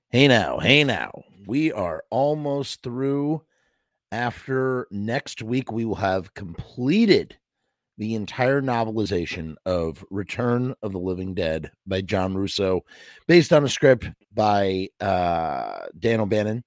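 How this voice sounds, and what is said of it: Hoarse, croaky voice. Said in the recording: “I have a bit of a frog in my throat.”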